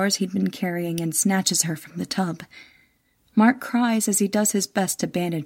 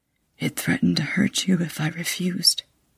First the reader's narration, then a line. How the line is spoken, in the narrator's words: whispers